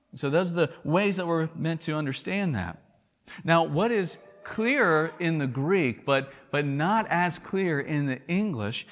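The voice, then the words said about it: Thick Southern US drawl. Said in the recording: “my thick southern drawl, I'm from the South”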